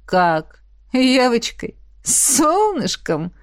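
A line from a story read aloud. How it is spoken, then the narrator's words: Mocking laughter. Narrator (Russian): Рассмеялся чертов манипулятор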